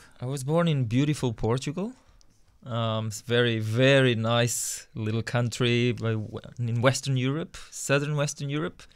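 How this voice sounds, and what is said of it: Speaks with a noticeable foreign accent. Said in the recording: “we detect that you have an accent, so you may have been born overseas”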